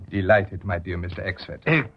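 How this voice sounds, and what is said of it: Put-on foreign accent for a character. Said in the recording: “Now, for the switch to the Baron's accent.”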